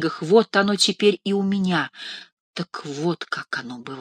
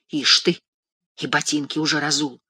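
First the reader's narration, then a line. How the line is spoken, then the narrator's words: Angry muffled whisper. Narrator (Russian): зло и глухо шепчет она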